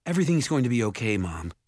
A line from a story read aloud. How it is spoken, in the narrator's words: Jared said, wishing for his voice to stay even